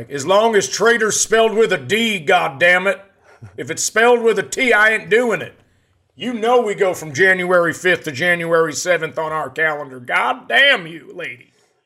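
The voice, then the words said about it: Kentucky man impression. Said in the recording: “my impersonation of a guy coming up from Kentucky”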